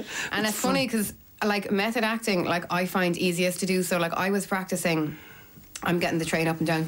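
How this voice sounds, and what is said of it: Usual voice. Nothing is said of it.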